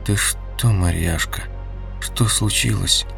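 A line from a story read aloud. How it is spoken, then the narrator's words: Weak voice. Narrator (Russian): Олег спросил слабым голосом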